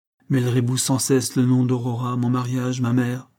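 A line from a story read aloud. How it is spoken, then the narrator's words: Plain. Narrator (French): dit-il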